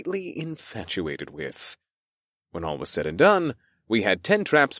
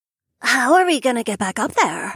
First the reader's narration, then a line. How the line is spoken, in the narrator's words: Zarandri blurted out with pursed lips